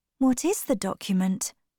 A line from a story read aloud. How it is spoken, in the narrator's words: she asked quietly